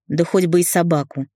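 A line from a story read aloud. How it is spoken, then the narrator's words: Scornful snort. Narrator (Russian): фыркнула Света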